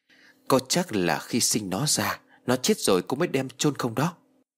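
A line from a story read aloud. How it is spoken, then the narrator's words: Pensive soft reply. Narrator (Vietnamese): Cô Miện trầm ngâm một hồi rồi ... khẽ đáp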